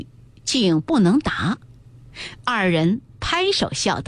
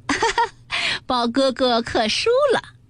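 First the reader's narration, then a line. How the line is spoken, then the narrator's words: Laughing, clapping. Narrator (Chinese): 湘云也拍手笑道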